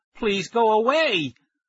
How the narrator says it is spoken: I shouted

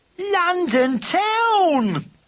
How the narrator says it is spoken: cried the racers

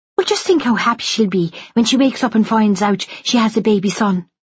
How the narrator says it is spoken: Katie said brightly

